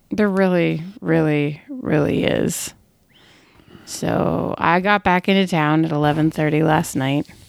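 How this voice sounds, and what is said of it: Hoarse, worn-out voice. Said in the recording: “you can hear my voice is still shot. Or I'm getting the con crud”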